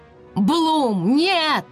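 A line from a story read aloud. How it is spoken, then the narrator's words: Shouting. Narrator (Russian): закричал Скай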